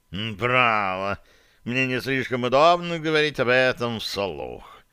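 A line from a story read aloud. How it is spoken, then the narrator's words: Cat purring. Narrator (Russian): промурлыкал кот да Винчи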